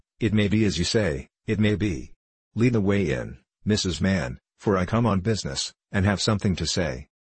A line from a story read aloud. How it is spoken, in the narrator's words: he replied in a calmer tone